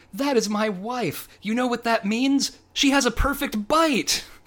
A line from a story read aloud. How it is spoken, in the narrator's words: yells